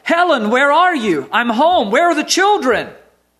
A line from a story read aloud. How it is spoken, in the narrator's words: Again I shouted